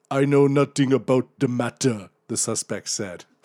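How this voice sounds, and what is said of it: Put-on foreign accent. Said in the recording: “Great accent”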